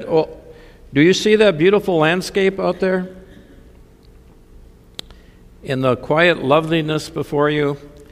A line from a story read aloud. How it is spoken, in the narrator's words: The minister calmly said